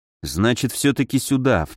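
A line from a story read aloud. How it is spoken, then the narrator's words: Muttered under breath. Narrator (Russian): в полголоса пробормотал я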